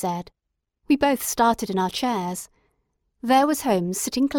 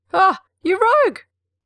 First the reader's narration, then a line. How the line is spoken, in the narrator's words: cried Jones, highly delighted